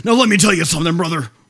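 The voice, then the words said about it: Bad impression of a pro wrestler. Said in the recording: “that was a really bad Hulk Hogan impression.”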